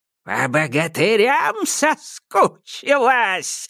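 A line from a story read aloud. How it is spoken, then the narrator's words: Old witch's sizzling hiss. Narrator (Russian): зашипела баба-яга, как будто водой на раскаленный камень плеснули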